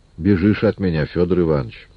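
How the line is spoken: Gentle, affectionate. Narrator (Russian): спросил ласково

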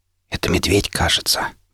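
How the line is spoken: Whispered. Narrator (Russian): прошептал

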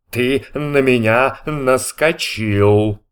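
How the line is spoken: Gloomy. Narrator (Russian): мрачно сказал Иа

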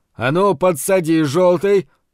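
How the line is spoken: Impatient shout. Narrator (Russian): нетерпеливо крикнул он Зарубину

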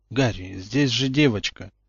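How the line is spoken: Gentle reproach. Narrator (Russian): мягко укорил его Люпин

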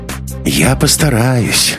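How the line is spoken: Sighing. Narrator (Russian): Маруся вздохнула

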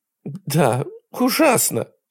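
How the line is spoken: Sobbing. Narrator (Russian): она всхлипывала у него на плече

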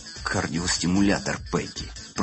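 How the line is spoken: Whispered in ear. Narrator (Russian): прошептал на ухо Кэмпи Питбуль

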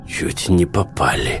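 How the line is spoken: Hoarse voice. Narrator (Russian): хриплым голосом зачем-то поведал ему Сток

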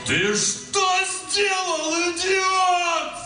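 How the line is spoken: Loud echoing yell. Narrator (Russian): заорал Данил во все горло, и его крик поднялся под крону дуба и эхом разнесся по окрестным участкам

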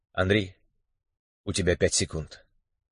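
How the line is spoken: Quiet. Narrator (Russian): негромко сообщил Михаил

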